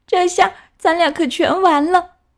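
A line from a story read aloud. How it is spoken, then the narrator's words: Crying sadly. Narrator (Chinese): 格莱特伤心的哭了起来，对汉塞尔说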